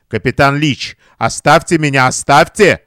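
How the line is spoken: Effortful, firm, stern. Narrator (Russian): Сделав над собой усилие, она заговорила решительно и строго

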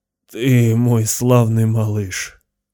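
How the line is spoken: Rasping. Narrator (Russian): прохрипел Кайл

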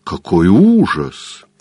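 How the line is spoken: Exclaiming. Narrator (Russian): воскликнула леди Агат

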